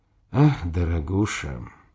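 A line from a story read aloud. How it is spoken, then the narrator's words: Tired smiling voice. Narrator (Russian): устало улыбнулся Дзержин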